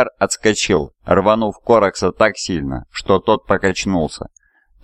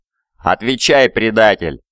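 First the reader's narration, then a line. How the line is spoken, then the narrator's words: Snarling raven lord. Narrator (Russian): зарычал повелитель воронов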